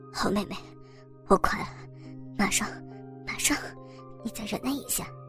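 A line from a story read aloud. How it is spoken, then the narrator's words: Panting. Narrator (Chinese): 王红喘气着说道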